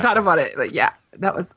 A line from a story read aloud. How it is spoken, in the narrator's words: I laughed there